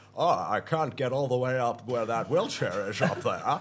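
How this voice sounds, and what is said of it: Imitates another person's voice. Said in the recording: “my Sylvester Stallone impression ... That's more of a Sean Connery ... You're doing Sean Connery Bond, not Rocky Balboa.”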